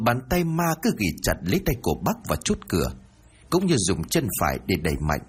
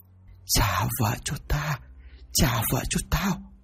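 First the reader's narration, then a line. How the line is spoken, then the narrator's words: Whisper in the ear. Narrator (Vietnamese): một giọng nói thì thầm bên tai của hắn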